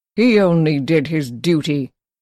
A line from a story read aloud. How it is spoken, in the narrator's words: Crane said, his voice heavy with malice